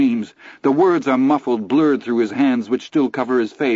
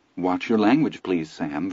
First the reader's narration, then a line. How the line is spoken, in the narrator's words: Virginia says calmly